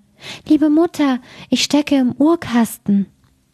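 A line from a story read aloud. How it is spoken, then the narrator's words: Thin small voice calling. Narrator (German): das Jüngste ... rief eine feine Stimme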